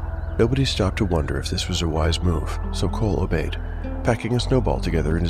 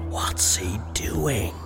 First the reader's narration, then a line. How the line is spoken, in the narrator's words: asked Jace in a whisper